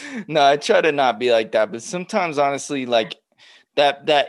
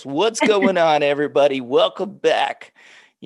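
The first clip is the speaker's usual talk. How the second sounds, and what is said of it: Talk show host podcast voice. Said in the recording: “I got to come in like a talk show host ... that's my podcast voice ... I hear you with the podcast voice”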